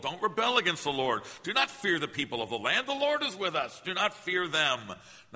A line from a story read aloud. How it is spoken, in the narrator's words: Joshua pleaded with the people